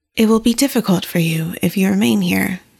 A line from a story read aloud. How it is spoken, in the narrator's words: the storyteller said